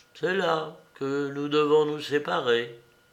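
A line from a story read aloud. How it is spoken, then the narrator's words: Sighing. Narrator (French): Et il ajouta, en poussant un soupir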